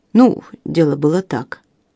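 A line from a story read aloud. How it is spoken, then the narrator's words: Mumble. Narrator (Russian): промямлил Линдси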